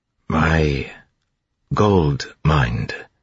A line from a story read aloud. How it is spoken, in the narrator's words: he said slowly